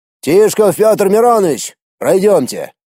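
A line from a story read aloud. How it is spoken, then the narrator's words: Booming voice. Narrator (Russian): появившийся, тот самый полковник, зычным голосом произнес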